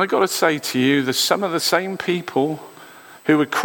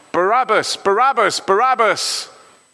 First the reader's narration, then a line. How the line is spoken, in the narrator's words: shouting out